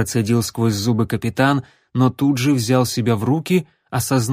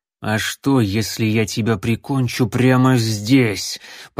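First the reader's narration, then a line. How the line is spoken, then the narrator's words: Growling captain. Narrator (Russian): прорычал капитан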